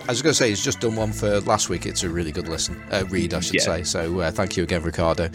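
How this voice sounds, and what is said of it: Australian accent. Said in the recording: “Australian accent”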